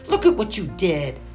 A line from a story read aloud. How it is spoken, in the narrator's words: snapped Robin